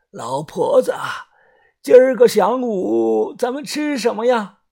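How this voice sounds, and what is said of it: Hoarse old man's voice. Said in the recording (Chinese): “用沙哑老人的声音说道”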